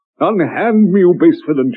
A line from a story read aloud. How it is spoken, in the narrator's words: she cried, her heart in turmoil